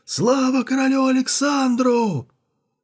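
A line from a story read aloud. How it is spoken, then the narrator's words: Crowd shouting. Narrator (Russian): Они все закричали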